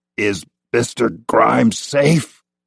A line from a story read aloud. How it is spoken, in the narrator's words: asked thickly, tongue sore and swollen from him biting it